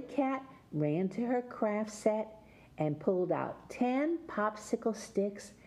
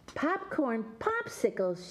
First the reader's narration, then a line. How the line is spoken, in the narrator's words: squealed